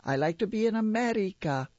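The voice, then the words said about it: Put-on Puerto Rican accent. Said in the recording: “people still call out to me in a Puerto Rican accent”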